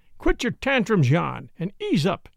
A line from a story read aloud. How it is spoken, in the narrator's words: panted Red Bill